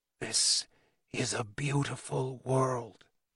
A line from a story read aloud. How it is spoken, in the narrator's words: whispered Henry